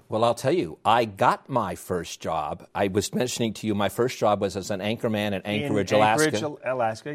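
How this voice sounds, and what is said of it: New York accent. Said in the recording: “my New York accent ... You have an accent”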